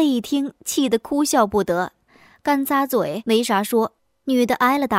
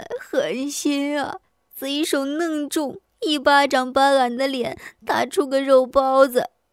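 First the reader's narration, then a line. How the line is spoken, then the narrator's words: Woman crying out. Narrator (Chinese): 女的 腮帮子上起了个大包 哭叫起来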